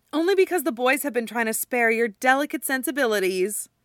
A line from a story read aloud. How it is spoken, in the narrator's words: Erica says cheerfully